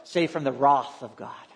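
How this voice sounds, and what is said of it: Put-on British accent. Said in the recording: “if we just use a British accent, it starts to sound a little better.”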